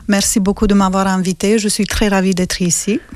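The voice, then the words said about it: Slight Romanian accent in French. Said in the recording (French): “ils entendent ta voix avec un petit accent ... ce petit accent vient de la Roumanie”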